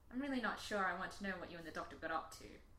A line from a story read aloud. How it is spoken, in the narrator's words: Rose muttered